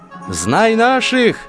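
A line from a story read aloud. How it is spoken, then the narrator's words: Shout. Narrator (Russian): закричал он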